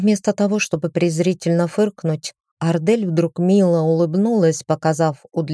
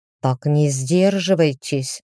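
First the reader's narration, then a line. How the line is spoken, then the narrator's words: Growled. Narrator (Russian): прорычал мужчина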